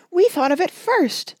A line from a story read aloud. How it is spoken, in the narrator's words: shrieked Betsy, Tacey, and Tib